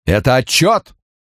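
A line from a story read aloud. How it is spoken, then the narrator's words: Booming strong low voice. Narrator (Russian): Прогремел он под стать Бену Френкелю, но без грозовых раскатов в сильном низком голосе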